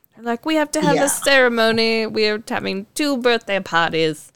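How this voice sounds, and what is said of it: Put-on British accent. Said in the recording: “There's my British accent.”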